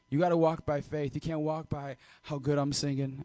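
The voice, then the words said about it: Raspy voice. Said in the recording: “I may have a raspy voice.”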